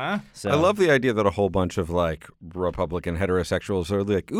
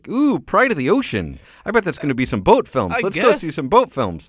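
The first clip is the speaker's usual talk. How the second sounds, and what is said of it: Put-on Minnesota accent. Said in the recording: “I don't know why that was Minnesota in the accent.”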